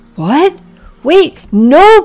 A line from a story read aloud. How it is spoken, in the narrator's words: Priscilla yelled